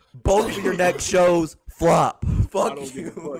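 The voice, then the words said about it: Loud angry yelling. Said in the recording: “I'm yelling at you so loud right now”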